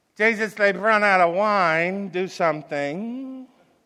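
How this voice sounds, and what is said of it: Jewish mother voice impersonation. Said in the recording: “my best Jewish mother impersonation.”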